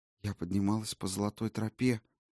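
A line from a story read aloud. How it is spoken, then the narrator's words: Barely audible whisper. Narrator (Russian): еле слышно прошептала валькирия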